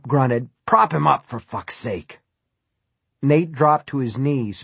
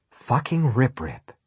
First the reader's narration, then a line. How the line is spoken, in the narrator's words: he breathed